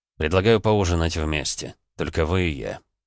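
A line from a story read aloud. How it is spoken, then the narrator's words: Said quietly. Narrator (Russian): тихо произнес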